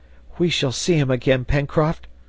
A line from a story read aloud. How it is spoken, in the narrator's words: cried Herbert